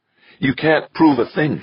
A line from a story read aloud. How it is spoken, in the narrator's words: said, her voice coldly furious